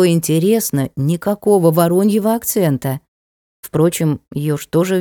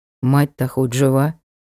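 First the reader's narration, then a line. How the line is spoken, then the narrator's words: Grim question. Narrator (Russian): мрачно спросил Ник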